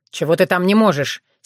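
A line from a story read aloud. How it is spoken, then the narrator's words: Angry question. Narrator (Russian): сердито уточнил Сергей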